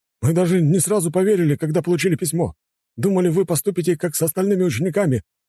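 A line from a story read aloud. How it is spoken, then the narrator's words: Exclaimed. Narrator (Russian): воскликнул один из них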